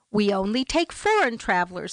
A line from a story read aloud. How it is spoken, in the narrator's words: said the clerk